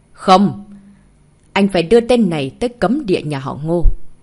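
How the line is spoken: Cold. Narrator (Vietnamese): Ngô Thiên lạnh lùng nói

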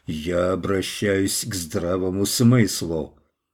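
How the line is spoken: Growl. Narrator (Russian): Варвар зарычал

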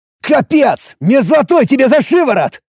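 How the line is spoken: Shouting. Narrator (Russian): закричал я

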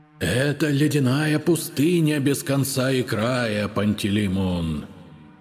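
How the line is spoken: Booming whisper. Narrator (Russian): Гулким шепотом заговорил Аладушкин

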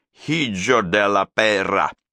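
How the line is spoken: Snotty hiss. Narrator (Russian): Он злобно, с вызовом, прошипев сквозь сопли

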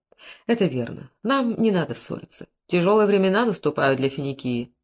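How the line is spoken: After deep breaths. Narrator (Russian): Хирам несколько раз глубоко вздохнул и сказал

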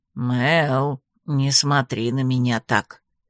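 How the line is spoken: Creaky grumble. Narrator (Russian): скрипуче проворчал наш хозяин

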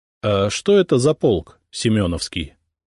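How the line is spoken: Plain. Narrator (Russian): спросил я

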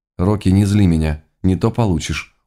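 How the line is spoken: Weary. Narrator (Russian): устало выдала девушка

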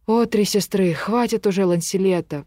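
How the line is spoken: Moan. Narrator (Russian): простонал Галахад

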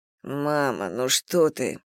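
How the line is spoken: Mumbling. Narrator (Russian): пробормотал Сергей

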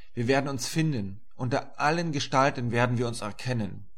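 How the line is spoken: Calling out. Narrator (German): rief ich

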